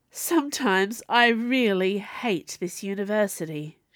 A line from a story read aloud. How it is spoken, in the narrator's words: sighed